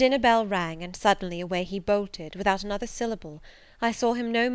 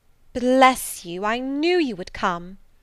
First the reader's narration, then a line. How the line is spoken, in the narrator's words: exclaimed Mrs